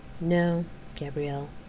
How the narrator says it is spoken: her conscience corrected her quietly

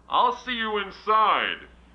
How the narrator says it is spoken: he yelled to Cindy

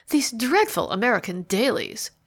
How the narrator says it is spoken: she exclaimed

